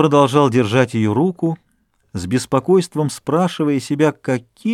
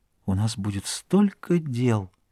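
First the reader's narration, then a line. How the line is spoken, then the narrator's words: Whisper. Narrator (Russian): Она прошептала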